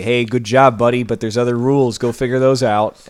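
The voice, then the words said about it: Imitates another person's voice. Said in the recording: “Jordan Peterson impression needs work. ... it's in a higher register. Like, you can't just do the Canadian thing. You've got to go up here”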